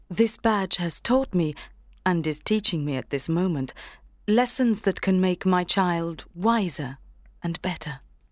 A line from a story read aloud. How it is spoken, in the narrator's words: said the mother calmly